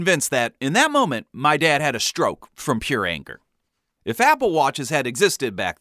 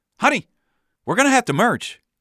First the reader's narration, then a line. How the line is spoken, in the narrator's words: My mom tried to snap him out of it, yelling